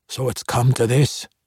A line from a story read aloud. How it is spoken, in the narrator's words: muttered